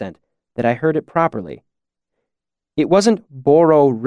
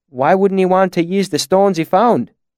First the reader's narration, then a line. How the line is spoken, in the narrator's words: I asked